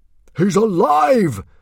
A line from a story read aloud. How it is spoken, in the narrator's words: shouted out Stoic in triumph